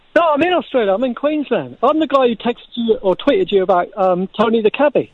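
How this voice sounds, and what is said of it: Australian accent. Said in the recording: “Did you just suddenly put on an Australian accent then”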